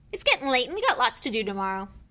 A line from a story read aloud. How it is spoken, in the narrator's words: said Hagrid loudly